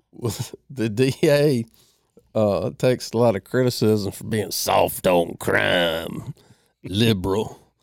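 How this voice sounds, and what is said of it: Impression of Adam Vingan's voice. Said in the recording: “I do like it when you do that voice ... I'm channeling my inner Adam Vingan ... his voice on the gold standard”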